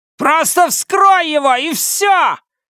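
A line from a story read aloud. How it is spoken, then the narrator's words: Widow yelling. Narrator (Russian): заорала вдова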